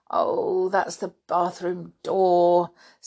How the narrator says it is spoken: said George with a groan

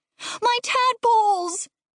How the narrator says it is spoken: River screamed

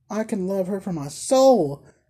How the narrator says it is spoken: exclaimed the blind girl

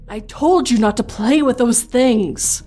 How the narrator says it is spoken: my mother exclaimed in a panic

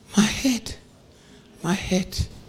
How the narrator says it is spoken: the child cries

